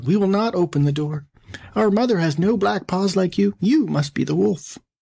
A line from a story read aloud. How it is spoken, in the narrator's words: the kids, seeing this, cried out